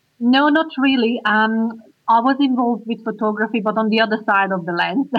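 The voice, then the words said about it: Hungarian accent. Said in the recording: “I can hear you've got a bit of an accent... I'm Hungarian.”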